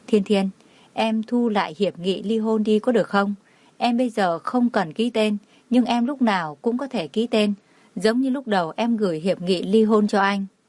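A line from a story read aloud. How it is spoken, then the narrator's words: Soft murmur in ear. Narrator (Vietnamese): Cảnh Liêm Uy thật lâu sau mới khẽ mở miệng nói bên tai cô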